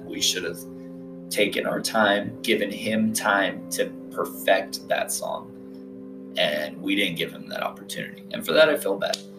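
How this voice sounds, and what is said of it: Gravelly, unusually low hoarse voice. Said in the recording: “my voice is so gravelly. I'm not sure if I'm tired or if I am just like sick or something ... my voice just doesn't want to go any higher than this ... I usually talk like up here ... it keeps dropping”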